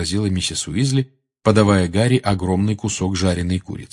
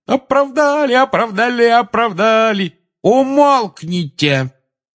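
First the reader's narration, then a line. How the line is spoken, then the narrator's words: Shouting. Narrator (Russian): крикнула миссис Уизли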